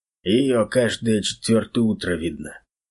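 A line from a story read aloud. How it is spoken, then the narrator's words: Sigh. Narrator (Russian): вздохнул Кузьма Афанасьевич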